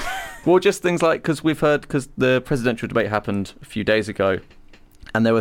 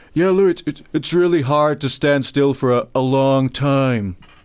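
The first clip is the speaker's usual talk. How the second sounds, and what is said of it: Donald Trump impression. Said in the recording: “It's a good impression. ... I'm doing the mouth.”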